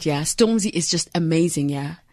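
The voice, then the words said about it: Put-on British accent. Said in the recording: “in my British accent”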